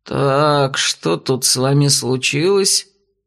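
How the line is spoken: Deep bass, eldest young man. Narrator (Russian): пробасил один из парней, по виду самый старший

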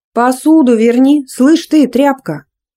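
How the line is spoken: Bossy bark. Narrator (Russian): гаркнула по-хозяйски рыжая на скатерку

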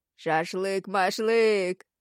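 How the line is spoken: Laughing shout. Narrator (Russian): смеясь, кричал кто-то из парней

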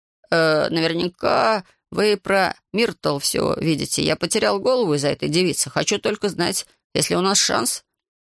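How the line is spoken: Gloomy tone. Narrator (Russian): дама мрачным тоном произнесла

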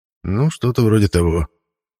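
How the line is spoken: Muttering. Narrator (Russian): пробормотал семичастный

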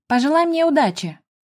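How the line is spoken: Shouting. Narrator (Russian): прокричала я Стефе

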